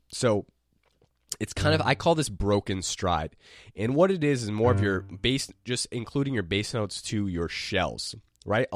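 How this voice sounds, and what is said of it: Strained, failing voice. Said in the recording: “my voice is going from being sick”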